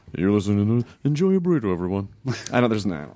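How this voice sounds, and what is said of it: Weird put-on voice. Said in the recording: “That's a weird voice. You never used that before.”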